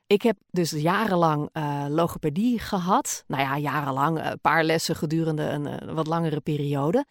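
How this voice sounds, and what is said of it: Dutch speaker with Gooi R. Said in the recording (Dutch): “Ik heb zelf een Gooise R. dat is eigenlijk ook een beetje een accent.”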